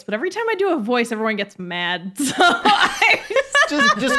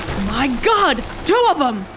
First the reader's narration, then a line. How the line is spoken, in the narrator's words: shouted